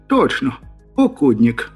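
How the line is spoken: Joyful exclamation. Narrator (Russian): обрадованно воскликнул я

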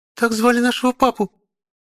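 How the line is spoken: Frightened little girl. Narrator (Russian): малышка испуганно

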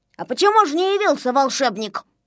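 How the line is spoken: Angry. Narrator (Russian): сердито наступал Незнайка

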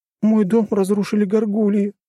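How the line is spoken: Sobbing. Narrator (Russian): всхлипнула она

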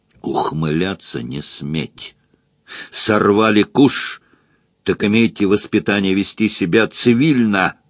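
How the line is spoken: Furious close hiss. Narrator (Russian): Бешеным голосом прошипел граф, придвинувшись вплотную

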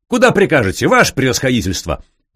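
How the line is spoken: Dashing shout, old bearded man. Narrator (Russian): Молодцевато выкрикнул сивобородый владимирец

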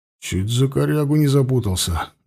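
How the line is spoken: Breathless mutter. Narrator (Russian): глубоко дыша пробормотал второй

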